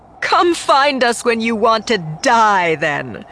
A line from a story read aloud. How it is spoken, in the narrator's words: Phasma called back over her shoulder, laughing